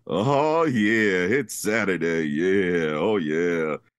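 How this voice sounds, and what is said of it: Fake radio DJ voice. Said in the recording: “Fake radio name and a fake voice ... He was horrible ... he's bad on the air”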